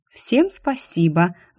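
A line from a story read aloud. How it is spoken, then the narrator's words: Gentle sing-song. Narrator (Russian): ласково пропела я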